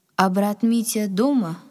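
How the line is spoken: Plain. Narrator (Russian): спросил Василий

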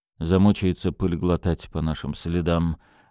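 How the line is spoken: Gloomy sarcasm, young man. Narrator (Russian): мрачно съязвил молодой человек

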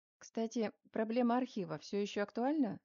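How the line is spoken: Plain. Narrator (Russian): спросил Мельников

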